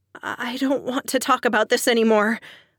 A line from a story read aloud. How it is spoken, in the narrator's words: I said shakily